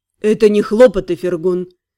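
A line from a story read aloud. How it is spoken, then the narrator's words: Stern. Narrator (Russian): строго поправил Лорлен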